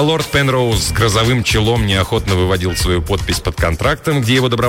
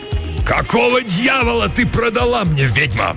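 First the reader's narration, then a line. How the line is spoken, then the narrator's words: Roar. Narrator (Russian): взревел он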